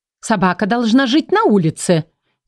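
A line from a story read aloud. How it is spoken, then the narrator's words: Categorical declaration. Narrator (Russian): заявила она безапелляционным тоном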